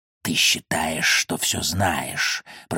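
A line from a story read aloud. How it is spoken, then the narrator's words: Hissed by a serpent. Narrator (Russian): прошипел змей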